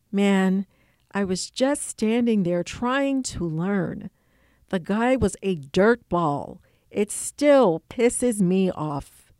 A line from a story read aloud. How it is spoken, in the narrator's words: he murmured